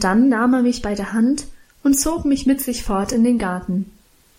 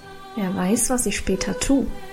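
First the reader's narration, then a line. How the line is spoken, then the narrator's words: Mysterious murmuring. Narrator (German): murmelte Karl geheimnisvoll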